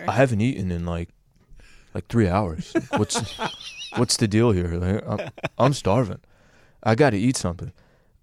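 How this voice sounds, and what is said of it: Laid-back stoner college guy voice. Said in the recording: “he'd be a stoner at San Diego State University that's in his second year ... do the voice.”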